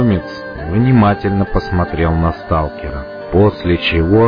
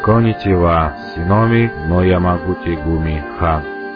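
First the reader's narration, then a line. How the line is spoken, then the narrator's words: Calm. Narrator (Russian): спокойно произнес он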